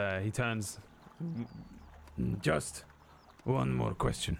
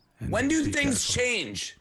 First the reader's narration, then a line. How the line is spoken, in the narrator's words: I yell out to him